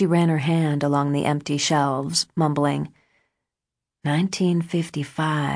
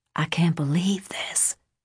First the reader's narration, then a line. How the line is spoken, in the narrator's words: Debra whispered